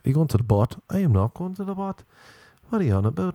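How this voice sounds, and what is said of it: Put-on Belfast accent. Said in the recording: “let me do my Belfast accent ... Sounds Norwegian. Could be from Belfast.”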